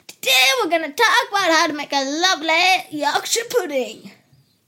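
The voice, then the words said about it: Put-on accent, comic cooking-show voice. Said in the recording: “I've got a marvellous beard and a brilliant accent.”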